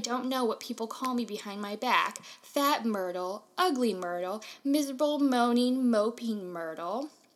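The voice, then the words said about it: Moaning Myrtle character voice. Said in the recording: “Good Moaning Myrtle impression.”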